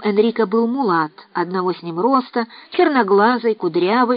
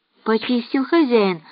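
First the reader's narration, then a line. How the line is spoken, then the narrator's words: Timid answer. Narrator (Russian): робко ответил Дадо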